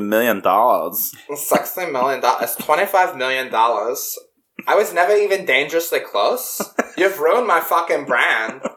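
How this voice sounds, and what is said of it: Exaggerated German-like accent imitation. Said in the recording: “This is such a horrible voice. I hate it. ... it's a Russian doing a German accent.”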